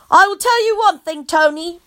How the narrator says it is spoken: I shouted

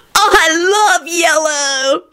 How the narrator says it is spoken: shouted Kenny happily

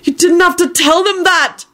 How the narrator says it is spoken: Neville shouted furiously

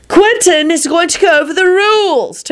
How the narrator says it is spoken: Timothy yelled again

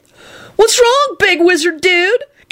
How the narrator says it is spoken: Kenny called out snidely to Neville

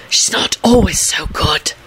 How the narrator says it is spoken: Neville hissed conspiratorially

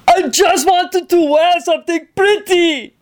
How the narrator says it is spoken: howled

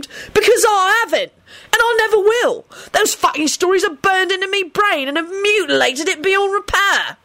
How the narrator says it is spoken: he screamed

